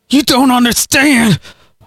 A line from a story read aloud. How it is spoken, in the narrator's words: Harley cried, his eyes widened as Galen pulled harder on his hair